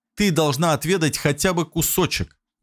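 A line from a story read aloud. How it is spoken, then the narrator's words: Young man exclaiming. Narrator (Russian): воскликнул молодой человек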